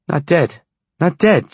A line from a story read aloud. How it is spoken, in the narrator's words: cried